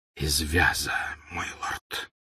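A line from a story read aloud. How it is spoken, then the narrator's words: Whisper. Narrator (Russian): прошептал Малфой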